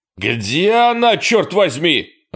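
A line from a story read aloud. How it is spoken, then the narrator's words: Yelling. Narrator (Russian): орал Эрни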